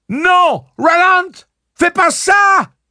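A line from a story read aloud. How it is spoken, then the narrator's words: Screamed. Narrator (French): hurle Susanna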